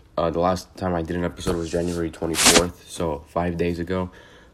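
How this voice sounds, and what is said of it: Slightly off, sick-sounding voice. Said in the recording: “I was sick and you might still be able to tell from my voice uh, that I'm a little bit off still”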